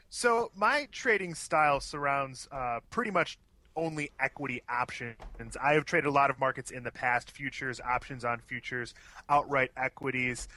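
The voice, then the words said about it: Thick, fast Chicago accent. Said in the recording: “your Chicago accent is thick and fast across the airwaves”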